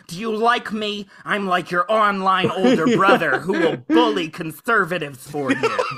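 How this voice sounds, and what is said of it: Imitates another person's voice. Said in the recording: “my amazing Vaush impression”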